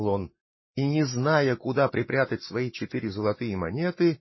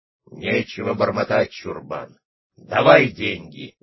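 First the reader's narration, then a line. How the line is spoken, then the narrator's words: Menacing shout, robbers. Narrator (Russian): закричали грозно разбойники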